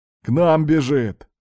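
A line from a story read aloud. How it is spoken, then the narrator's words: Joyful announcement. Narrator (Russian): радостно сообщил Пузырь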